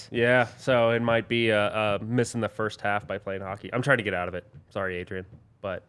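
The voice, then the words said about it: Slightly hoarse voice. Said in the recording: “Your voice sounds a little hoarse.”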